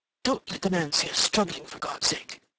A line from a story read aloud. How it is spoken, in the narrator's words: he murmured